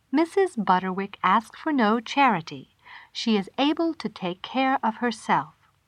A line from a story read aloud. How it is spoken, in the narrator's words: she replied in the same recorded announcement voice